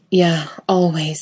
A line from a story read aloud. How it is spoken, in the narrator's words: Jensen gasps